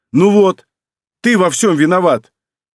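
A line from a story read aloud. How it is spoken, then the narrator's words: Frightened shout. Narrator (Russian): перепугавшись, и крикнула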